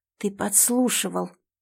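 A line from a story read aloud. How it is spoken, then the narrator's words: Hoarse rasp, constricted throat. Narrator (Russian): сиплю, растирая горло, которое будто тонким стальным обручем сдавило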